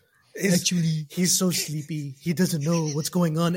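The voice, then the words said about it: Donald Trump impression. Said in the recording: “Was that a good Trump? ... That was pretty good actually. ... for the Trump impersonation”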